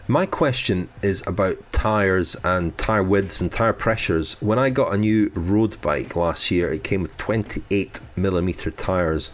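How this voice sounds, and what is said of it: French accent. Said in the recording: “hence the French accent.”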